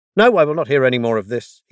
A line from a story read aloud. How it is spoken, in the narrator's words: he added sharply